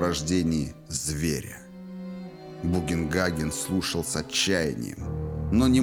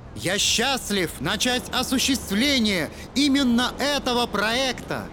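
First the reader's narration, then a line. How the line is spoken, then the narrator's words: Loud over wind. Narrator (Russian): Громко говорил Торн, превозмогая шум ветра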